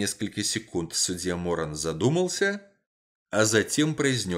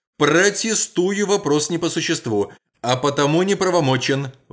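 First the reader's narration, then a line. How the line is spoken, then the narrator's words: Shouted out. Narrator (Russian): выкрикнул со своего места прокурор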